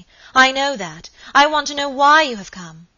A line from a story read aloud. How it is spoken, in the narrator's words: cried Lady Audley, impatiently